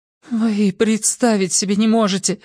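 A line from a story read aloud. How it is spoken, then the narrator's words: Trembling voice. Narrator (Russian): дрожащим голосом выговорила Хиллари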